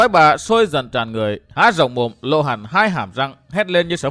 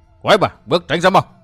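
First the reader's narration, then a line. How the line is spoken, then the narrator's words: Shouted. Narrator (Vietnamese): Độc Cô Thanh Tùng quát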